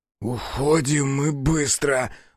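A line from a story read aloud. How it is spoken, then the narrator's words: Suddenly hoarse. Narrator (Russian): внезапно охрипнув, сказал Бучила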